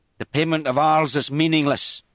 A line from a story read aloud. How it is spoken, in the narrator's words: said loudly